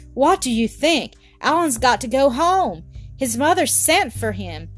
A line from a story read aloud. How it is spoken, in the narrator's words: Sandy, who was bursting to tell it, cried out